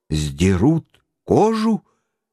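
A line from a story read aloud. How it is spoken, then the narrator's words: Angry exclamation. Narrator (Russian): гневно воскликнул географ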